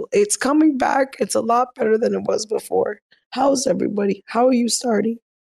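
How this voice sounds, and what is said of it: Hoarse, strained failing voice. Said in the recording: “I'm losing my voice, guys, so I want to apologize that it sounds so terrible”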